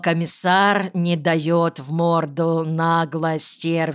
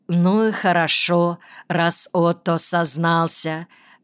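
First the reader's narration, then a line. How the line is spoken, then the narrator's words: Plain. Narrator (Russian): говорит Анна Квангель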